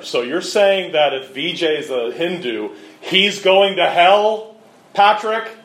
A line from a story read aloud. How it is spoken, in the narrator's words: she said very loudly